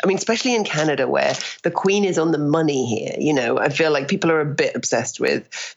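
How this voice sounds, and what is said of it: British accent. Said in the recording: “being British ... I love your accent ... I definitely have become way more British since I moved here.”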